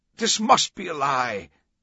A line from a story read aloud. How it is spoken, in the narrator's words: one of the cardinals yelled